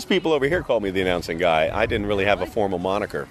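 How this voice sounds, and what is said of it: Polished announcer voice. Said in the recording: “you have an excellent announcer voice.”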